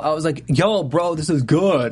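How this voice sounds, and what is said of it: Imitates another person's voice. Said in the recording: “my Jeff Masters impression”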